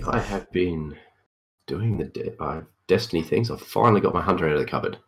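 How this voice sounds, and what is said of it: Deep, crusty voice from head cold. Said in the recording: “I am fighting off a bit touch of a head cold ... Lovely deep voice and might be a bit crusty.”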